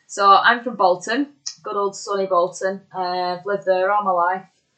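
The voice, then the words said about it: Broad Bolton English accent. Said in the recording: “when I say Bolton, my accent suddenly gets a lot more broader ... I just come out really broad Bolton again”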